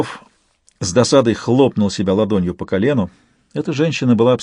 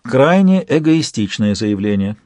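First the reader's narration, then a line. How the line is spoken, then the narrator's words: Calm tone. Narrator (Russian): спокойным тоном проговорила Альба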